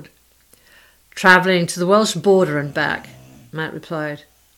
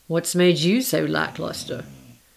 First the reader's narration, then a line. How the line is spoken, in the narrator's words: His voice was gentler as he asked